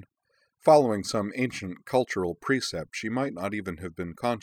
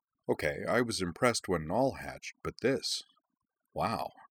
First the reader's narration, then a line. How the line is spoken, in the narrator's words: she murmured to him behind a confidential hand